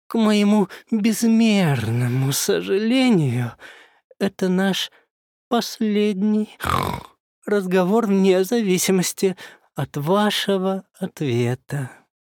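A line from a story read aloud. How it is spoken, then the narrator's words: Sad, deep sigh. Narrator (Russian): печально сообщил чертенок и глубоко вздохнул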